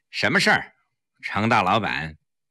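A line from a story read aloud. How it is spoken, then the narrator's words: Cold. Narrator (Chinese): 黄翠微冷冷地说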